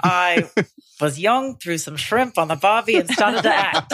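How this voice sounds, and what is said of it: Imitated Australian accent. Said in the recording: “I'm going to do it in your accent. ... No, I can't really do it. ... Just say, g'day, mate.”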